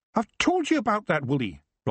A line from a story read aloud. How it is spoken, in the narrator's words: Rob snapped